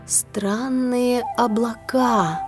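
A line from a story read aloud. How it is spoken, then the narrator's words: Thoughtful drawl. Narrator (Russian): задумчиво протянула она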